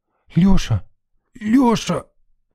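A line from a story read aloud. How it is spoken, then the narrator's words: Hoarse, pained croak. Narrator (Russian): прохрипела Галчонок, кусая губы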